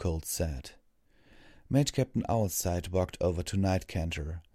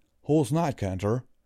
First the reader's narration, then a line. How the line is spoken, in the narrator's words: Applejack asked